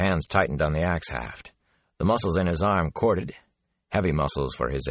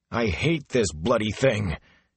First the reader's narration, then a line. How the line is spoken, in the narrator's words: he growled